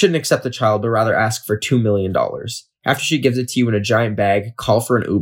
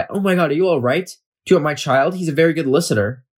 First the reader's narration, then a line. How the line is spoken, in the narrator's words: She will gasp and cry